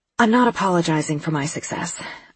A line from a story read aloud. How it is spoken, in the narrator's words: I said to Daisy between breaths